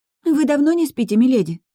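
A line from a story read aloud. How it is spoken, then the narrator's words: Slightly anxious question. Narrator (Russian): немного взволнованно спросила Кэти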